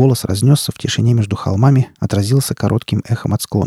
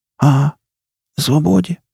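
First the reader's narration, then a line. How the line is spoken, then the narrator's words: Hoarse croak. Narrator (Russian): хрипнул кипяток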